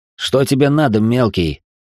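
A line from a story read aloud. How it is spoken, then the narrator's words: Irritated bark. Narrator (Russian): раздраженно рявкнул он на подростка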